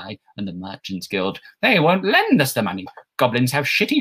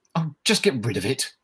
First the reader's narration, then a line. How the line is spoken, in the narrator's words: Lett snapped, her patience finally reaching its breaking point